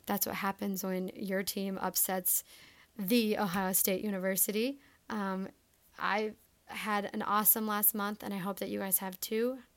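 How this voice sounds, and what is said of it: Hoarse, worn-out voice. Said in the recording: “my voice is a little bit shot right now”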